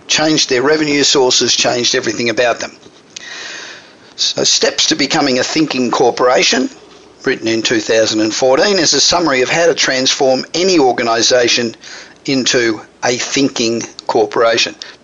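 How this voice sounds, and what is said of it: Australian accent. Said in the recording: “a pretty familiar kind of accent I can hear there ... It is a familiar accent. I'm Australian, obviously ... the accent doesn't go away”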